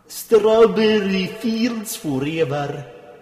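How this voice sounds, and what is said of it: Sung in a Russian accent. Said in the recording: “sing in a Russian accent”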